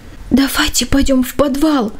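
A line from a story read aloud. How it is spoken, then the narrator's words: Anxious child's whisper. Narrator (Russian): тревожным шепотом предложил младший Джейк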